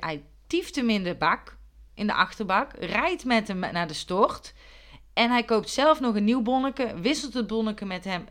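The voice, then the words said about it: Put-on accent while storytelling. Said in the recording (Dutch): “Waarom praat ik met dit accent?”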